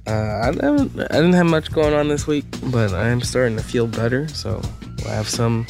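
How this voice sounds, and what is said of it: Heavy breathing into the microphone. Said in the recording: “You sound like a fan breathing into the microphone today”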